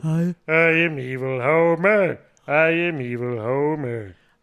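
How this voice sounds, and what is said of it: Homer Simpson cartoon voice impression. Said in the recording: “So here's full Homer.”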